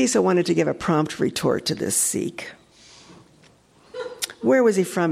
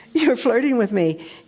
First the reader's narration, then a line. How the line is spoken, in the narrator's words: he blurted out